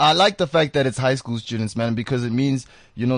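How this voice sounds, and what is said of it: Usual voice. Nothing is said of it.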